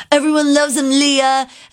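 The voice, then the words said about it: Imitates another person's voice. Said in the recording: “that's my impression of Tom.”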